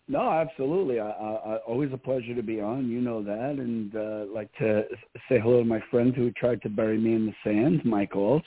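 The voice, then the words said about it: New York accent. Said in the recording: “that accent of yours ... the New York accent”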